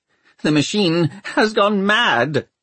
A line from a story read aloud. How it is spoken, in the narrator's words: he wailed